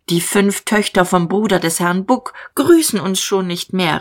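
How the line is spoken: Called out. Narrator (German): rief Magda

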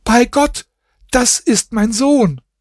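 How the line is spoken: Woman screaming. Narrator (German): seine Frau ... schrie sie

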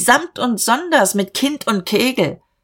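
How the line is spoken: Calling out. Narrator (German): rief Dieterich

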